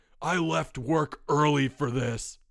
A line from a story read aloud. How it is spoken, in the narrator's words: bellowed a man in a dark suit